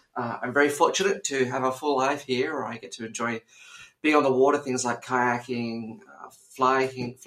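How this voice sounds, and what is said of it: Australian accent. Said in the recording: “you can hear an Australian accent.”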